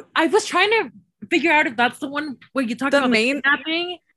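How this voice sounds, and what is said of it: Usual voice. Nothing is said of it.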